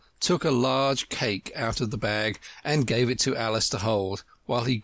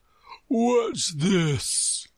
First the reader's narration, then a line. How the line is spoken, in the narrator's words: he said, speaking in a deep, hollow tone that sounded like the tolling of a large bell